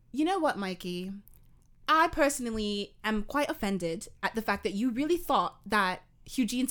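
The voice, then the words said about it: Put-on British accent. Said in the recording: “British impression ... Do the fucking accent”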